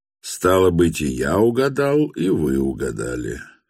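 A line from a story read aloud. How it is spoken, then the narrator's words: Calm tone. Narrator (Russian): спокойным тоном продолжал Ставрогин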